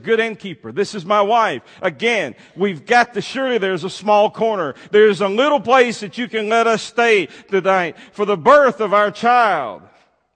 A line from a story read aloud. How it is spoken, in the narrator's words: pleadingly, Joseph said